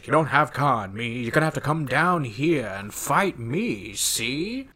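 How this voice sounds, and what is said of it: Weird mid-Atlantic accent impression. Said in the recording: “It's like borderline this weird mid-Atlantic accent thing he's doing.”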